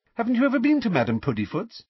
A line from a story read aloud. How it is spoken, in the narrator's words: She said brightly